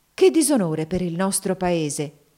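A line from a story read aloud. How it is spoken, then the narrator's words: Woman exclaiming indignantly. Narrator (Italian): esclamò una terza interlocutrice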